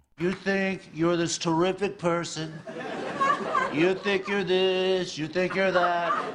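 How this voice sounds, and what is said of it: Impression of Donald Trump. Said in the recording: “that was cast member Daryl Hammond impersonating Trump”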